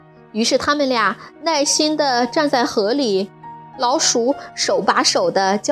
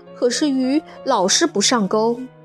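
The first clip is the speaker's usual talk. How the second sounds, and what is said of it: Quiet, complaining voice. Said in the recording (Chinese): “小声地抱怨道”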